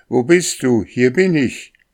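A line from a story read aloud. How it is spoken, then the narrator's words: Shouting as loud as possible. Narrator (German): So laut er konnte, rief er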